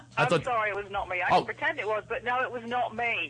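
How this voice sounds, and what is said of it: English accent. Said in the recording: “you have an English accent, correct?... I certainly do.”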